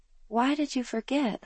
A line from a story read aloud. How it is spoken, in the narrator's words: Mom sighed